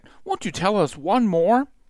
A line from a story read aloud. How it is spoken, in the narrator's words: Akela smiled kindly at the pack